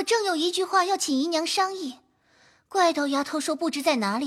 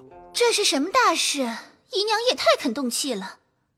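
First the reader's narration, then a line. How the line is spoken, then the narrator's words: Sighing. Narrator (Chinese): 探春便叹气说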